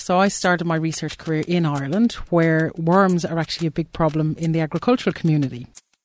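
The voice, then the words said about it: Irish accent. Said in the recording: “So I'm Irish, you may guess from my accent.”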